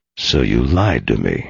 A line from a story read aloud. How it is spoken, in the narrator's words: Hank muttered